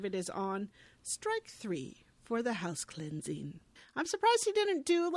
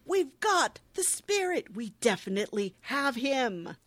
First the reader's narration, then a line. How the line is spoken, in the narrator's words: Who loudly proclaims